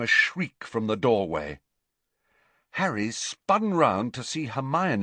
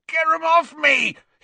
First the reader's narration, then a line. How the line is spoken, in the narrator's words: he yelled